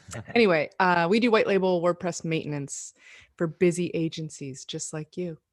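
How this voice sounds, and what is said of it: Velvety, smooth radio voice. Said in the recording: “great radio voice? ... you've got a really good voice. Velvety, smooth.”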